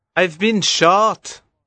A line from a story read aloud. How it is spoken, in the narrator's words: cried